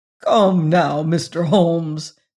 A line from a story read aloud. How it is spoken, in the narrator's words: said he, laughing good-humoredly